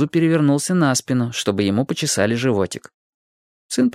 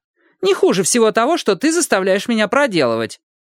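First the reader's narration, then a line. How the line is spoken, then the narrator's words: Snide. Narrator (Russian): ехидно добавила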